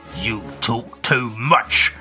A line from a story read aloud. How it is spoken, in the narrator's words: the big man growls